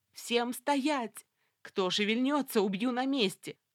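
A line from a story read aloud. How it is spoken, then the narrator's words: Terrifying, unrecognizable yell. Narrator (Russian): заорала я жутким голосом, который и сама бы теперь не узнала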